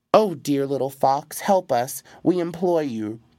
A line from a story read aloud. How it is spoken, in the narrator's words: cried the ogre and his wife